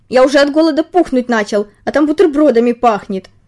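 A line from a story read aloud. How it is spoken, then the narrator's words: Mosquito, after loud sneeze. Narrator (Russian): комар громко чихнул и добавил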